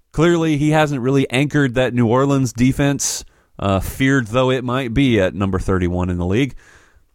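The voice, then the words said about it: Sarcastic delivery. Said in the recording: “that was sarcasm right there.”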